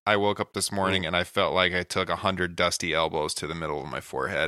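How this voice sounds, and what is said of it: Stuffy, congested allergy voice. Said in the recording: “some allergies started hitting me ... my nose is just. If I sound weird, that's why.”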